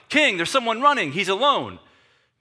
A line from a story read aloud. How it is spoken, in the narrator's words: a watchman up top, and he's yelling out